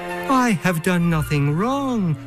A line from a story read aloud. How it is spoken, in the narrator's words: pleaded Till